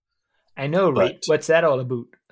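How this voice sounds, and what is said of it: Put-on Canadian accent. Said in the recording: “Do you see how Canadian I was? ... You nailed it.”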